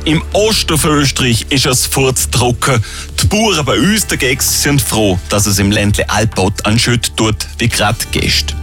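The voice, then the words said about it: Speaks in local regional dialect. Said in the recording (German): “Und ihr zählt wie alle im Dialekt”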